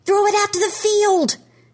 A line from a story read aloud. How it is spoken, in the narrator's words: Trevor yells